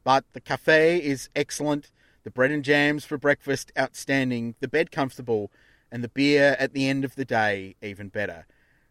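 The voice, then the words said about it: Australian accent. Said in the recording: “my appalling Aussie accent”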